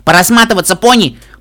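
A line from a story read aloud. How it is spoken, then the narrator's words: Shouted. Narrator (Russian): прокричала я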